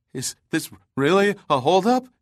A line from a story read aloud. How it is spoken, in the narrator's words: he stammered